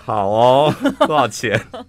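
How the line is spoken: Smiling. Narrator (Chinese): 我最后还笑笑的说

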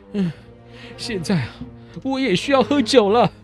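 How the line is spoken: Panting. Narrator (Chinese): 拿破仑他喘着气说

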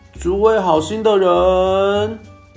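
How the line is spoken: Shouting. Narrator (Chinese): 第一个士兵叫喊

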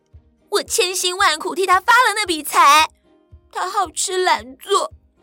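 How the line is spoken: Crying complaint. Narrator (Chinese): 小英也哭着要王爷爷评评理，说

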